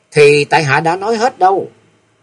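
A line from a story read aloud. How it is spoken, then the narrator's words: Smiling. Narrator (Vietnamese): Kim Tuyết Ngân mẩm mỉm cười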